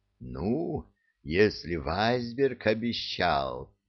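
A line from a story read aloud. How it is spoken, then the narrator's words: Meaningful drawl. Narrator (Russian): многозначительно протянул Стив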